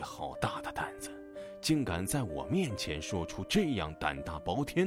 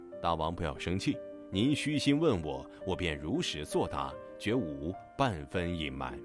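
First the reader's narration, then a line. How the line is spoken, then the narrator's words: Calm, detached. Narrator (Chinese): 孟子淡淡说道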